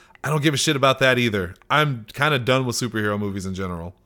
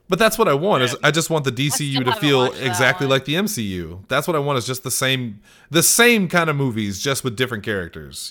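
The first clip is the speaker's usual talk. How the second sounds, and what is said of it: Sarcastic delivery. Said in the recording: “Was that sarcasm? ... That was sarcasm,”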